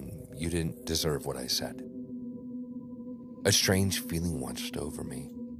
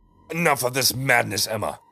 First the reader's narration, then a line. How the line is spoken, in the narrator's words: he roared